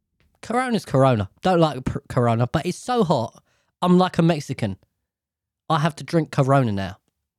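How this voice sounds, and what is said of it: Put-on Irish accent. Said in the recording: “Why am I doing the fucking Irish accent?”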